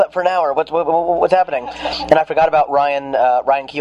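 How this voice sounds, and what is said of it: Usual voice. Nothing is said of it.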